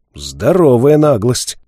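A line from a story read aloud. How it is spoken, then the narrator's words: Loud laughter. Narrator (Russian): искатель расхохотался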